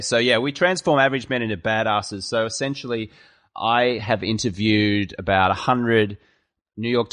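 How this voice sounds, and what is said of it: Australian accent. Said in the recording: “Should I keep my Australian accent with the ass or should I go American style with ass? ... I'm going to go with my Australian version”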